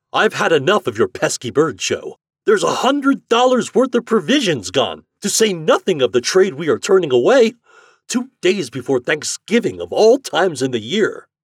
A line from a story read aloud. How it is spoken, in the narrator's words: cried